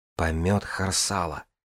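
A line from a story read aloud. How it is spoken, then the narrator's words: Muttering. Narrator (Russian): пробормотала Джанель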